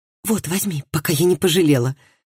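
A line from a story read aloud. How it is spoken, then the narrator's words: Whisper. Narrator (Russian): прошептала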